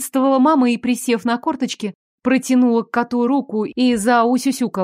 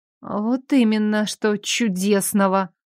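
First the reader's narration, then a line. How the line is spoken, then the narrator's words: Muttered. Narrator (Russian): пробормотала я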